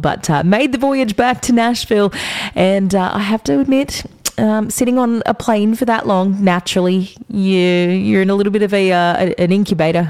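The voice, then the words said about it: Sick, rough-sounding voice. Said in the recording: “I'm a little under the weather today, as I'm sure you can hear in my voice ... noise came out, but it wasn't a great noise”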